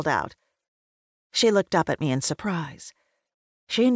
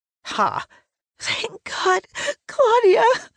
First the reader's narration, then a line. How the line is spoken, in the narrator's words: sobbed